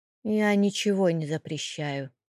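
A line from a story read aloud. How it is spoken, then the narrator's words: Grumbling landowner. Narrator (Russian): пробурчал землевладелец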